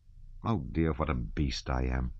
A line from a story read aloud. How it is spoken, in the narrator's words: muttered Rostov